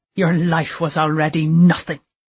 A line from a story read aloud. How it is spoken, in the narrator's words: he spat